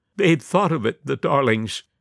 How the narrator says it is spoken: half-sobbed Mrs

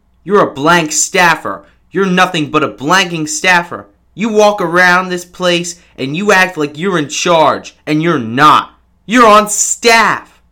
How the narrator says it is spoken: Bannon yelled at Ivanka, saying

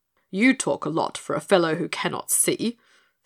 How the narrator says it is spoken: scoffed the guard

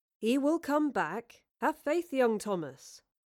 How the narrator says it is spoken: Will calmly replied

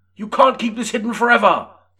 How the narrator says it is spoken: Tagman shouted

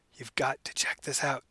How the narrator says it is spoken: she whispered

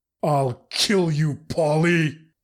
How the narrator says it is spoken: he roared

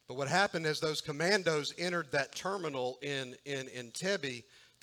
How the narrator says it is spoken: they shouted in Hebrew

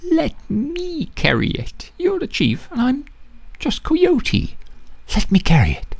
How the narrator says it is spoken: Coyote begged for the fourth time

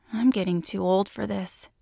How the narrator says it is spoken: muttered

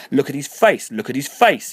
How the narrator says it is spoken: Harriet screamed

